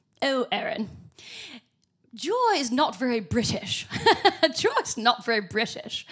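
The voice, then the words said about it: Deliberately bad put-on British accent. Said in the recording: “Excuse a terrible British accent.”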